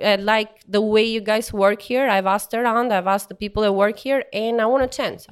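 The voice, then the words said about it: Thick foreign accent. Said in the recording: “like you can hear, I have a thick accent. This means I'm not from here”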